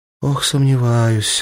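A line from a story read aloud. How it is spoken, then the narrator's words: Sighing. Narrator (Russian): вздохнула Ангелина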